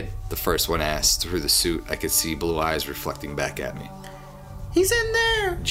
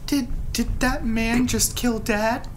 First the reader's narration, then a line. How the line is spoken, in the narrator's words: He asked, his voice a shaky whisper